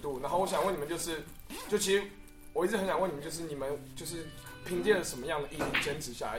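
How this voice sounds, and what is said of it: Suddenly changed put-on accent. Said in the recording (Chinese): “你怎么口音突然间变了？什么情况？”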